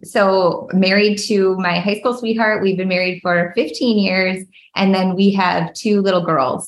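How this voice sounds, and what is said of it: Minnesota accent. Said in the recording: “born and raised Minnesota girl ... a lot of people can hear that in my accent”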